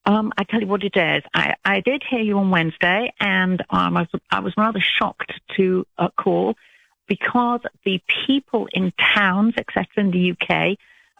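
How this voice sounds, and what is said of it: British English accent. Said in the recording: “you don't sound like you're from Alabama ... I'm British ... She's British ... I love her accent ... I love an English accent”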